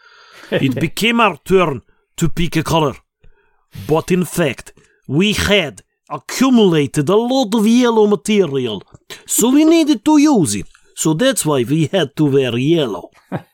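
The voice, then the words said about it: Put-on Russian accent. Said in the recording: “I should probably do it in a Russian accent ... I'm laughing about your accent”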